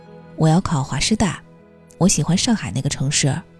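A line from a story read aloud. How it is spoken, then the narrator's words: Sudden remark. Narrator (Chinese): 许天浩 突然说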